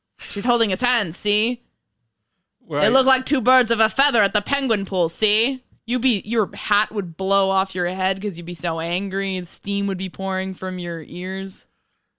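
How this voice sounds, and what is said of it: Old-timey 1930s reporter voice. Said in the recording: “Your old-timey 1930s reporter voice? ... But see, I recognize that voice.”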